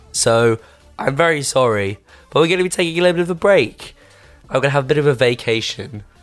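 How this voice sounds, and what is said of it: Losing voice, strained and weak. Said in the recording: “as you can probably tell by my voice, I don't really have one this week ... rest my vocal cords”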